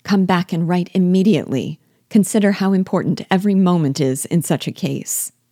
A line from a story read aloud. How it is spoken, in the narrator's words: she cried